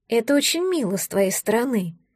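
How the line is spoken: Resigned sigh. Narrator (Russian): вздохнула Амалия, понимая, что проблемы только начинаются

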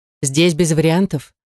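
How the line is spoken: Stern woman. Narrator (Russian): строго ответила женщина в синей форме

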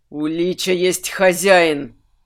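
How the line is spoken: Angry exhale. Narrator (Russian): Зло выдохнул Минош

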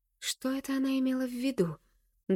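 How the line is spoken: Trembling whisper. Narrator (Russian): дрожащим голосом шепчу я

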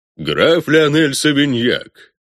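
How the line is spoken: Deep bass introduction. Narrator (Russian): басом представлял Лауншельд

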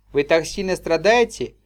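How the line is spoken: Gentle question. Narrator (Russian): ласково спросила леди Тиена

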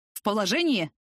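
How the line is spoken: Barked question. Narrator (Russian): рявкнул вопросом прапорщик Дюденко

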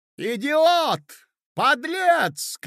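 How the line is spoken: Shouting. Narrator (Russian): кричала Марья Александровна

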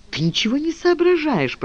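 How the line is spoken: Whisper. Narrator (Russian): прошептала Ева

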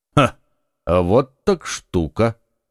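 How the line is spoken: Calm. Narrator (Russian): как всегда спокойно проговорил Атос

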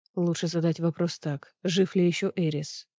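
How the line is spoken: Muttering. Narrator (Russian): пробормотал Азриэль

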